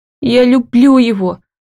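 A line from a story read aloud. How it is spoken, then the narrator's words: Sobbing uncontrollably. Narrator (Russian): рыдаю я навзрыд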